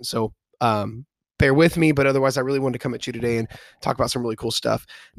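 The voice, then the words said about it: Congested voice, cracking like puberty. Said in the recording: “My voice sounds a little bit different today ... fighting a little bit of allergy stuff ... if it sounds like I am going through a very hard round of puberty ... my throat's not hurting. My voice just sounds a little bit different.”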